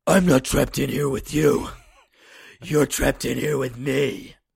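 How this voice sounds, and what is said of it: Imitated gruff movie-vigilante voice. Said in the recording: “my best Rorschach impression ... That's pretty good, actually ... It's just Christian Bale's Batman ... With a smaller tone.”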